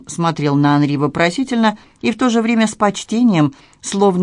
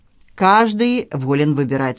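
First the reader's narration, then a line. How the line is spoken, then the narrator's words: Dry. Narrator (Russian): сухо сказал он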